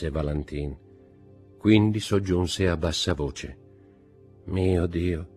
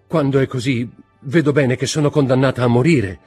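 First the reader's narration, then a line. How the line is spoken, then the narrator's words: Girl shouting through tears. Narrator (Italian): gridò la ragazza sciogliendosi in lacrime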